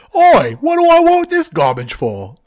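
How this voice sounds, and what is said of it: Put-on English accent. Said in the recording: “I can't do an English accent very well. ... That sounded spot on.”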